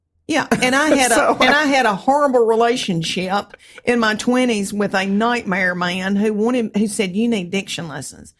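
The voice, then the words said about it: Country Southern American accent. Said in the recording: “if you see a video of a country woman talking ... this accent, I am not faking it ... that cheap accent ... if you were a diction coach, you would have a hard time getting someone to actually put on your accent”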